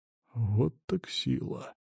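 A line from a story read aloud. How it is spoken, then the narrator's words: Muttering. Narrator (Russian): Только и пробормотал он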